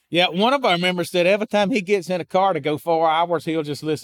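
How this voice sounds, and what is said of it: Noticeable regional accent. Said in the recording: “if you're going to listen to my accent for four hours ... He's going to end up sounding like me”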